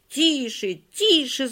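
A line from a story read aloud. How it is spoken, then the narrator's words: Several voices shouting. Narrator (Russian): закричали Коля, Оля, Галя, Валя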